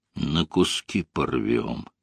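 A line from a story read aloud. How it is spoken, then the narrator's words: Gloomy addition. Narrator (Russian): мрачно добавил комод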